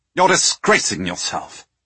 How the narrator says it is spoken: Villiers snapped

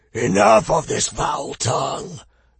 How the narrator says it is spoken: the warlord bellowed

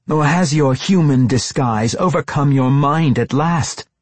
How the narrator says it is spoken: the wielder yelled

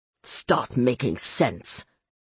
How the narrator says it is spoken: Luis Cesar snarled

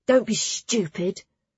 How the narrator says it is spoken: Clara hissed

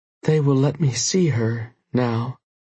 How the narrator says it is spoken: she slurred quietly

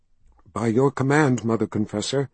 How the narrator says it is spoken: one woman said in a shaking voice

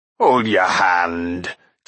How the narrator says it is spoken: chuckled Carl

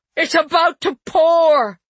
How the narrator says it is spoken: Ursula screamed

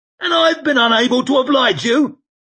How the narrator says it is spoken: snapped Koska

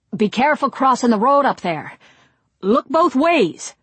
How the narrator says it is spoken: Dick shouted after them

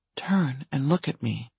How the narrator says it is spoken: she whispered

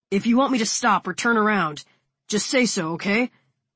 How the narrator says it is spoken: He shouts over the sound of the engine and the water splashing around us

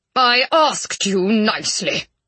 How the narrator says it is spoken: he growled

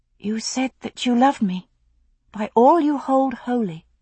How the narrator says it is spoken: she whispered

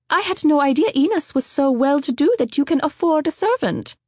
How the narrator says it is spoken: Helen spluttered, wrestling with curiosity

